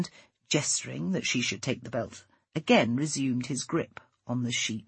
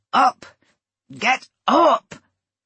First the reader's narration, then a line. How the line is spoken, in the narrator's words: The man showed her no concern, only grunted